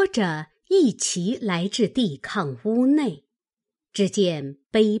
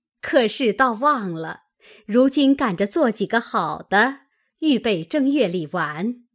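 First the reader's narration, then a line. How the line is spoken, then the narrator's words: Group laughing. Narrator (Chinese): 都笑道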